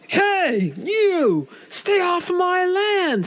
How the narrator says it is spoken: he roared

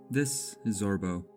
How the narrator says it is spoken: the landlord said

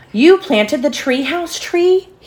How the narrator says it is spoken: He exclaimed

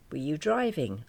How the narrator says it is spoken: I asked

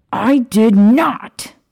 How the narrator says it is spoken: indignantly shouting

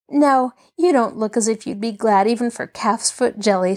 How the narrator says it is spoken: she chuckled

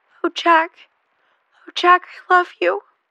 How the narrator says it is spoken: sobbed

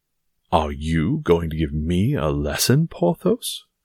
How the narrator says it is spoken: cried Aramis

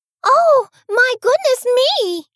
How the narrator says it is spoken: cried Goldilocks

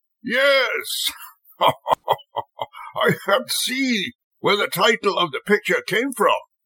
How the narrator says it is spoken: the manager laughed

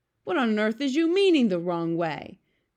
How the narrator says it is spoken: cried the BFG

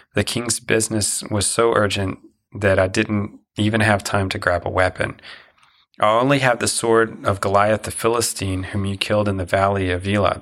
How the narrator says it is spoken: the priest said

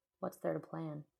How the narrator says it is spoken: asked

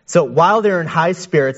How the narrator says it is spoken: they shouted

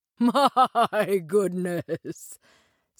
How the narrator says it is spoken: said Drosselmeyer, laughing

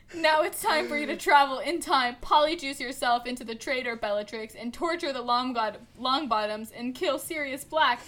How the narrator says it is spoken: Voldemort laughed evilly

